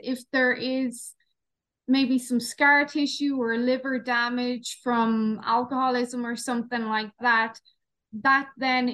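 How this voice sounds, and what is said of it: Irish accent. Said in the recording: “I recognize the Irish accent.”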